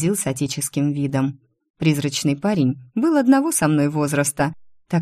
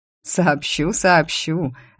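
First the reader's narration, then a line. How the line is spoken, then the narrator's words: Laughing. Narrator (Russian): рассмеялся фармер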